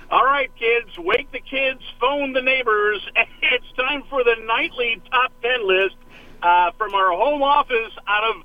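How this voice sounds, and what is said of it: Imitates a talk show host's voice. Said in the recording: “I love doing David Letterman ... I'm going to do a little David Letterman for you”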